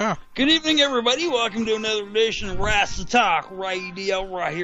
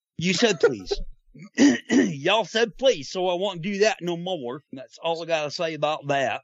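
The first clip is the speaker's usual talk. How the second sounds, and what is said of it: Southern twang Forrest Gump impression. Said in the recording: “a really weird Midwestern and Southern Western twang accent ... He's still doing it ... That was an impersonation of Forrest Gump Arizonan.”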